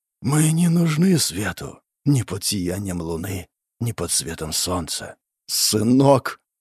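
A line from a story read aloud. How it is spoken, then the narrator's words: Quiet weeping. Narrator (Russian): Он тихо заплакал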